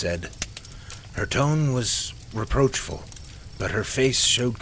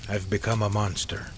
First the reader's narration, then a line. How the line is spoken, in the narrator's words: he said flatly, almost like he was talking about someone else